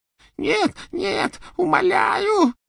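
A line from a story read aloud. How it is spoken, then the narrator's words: Choking sobs. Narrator (Russian): захлебывался рыданиями Ксенофилиус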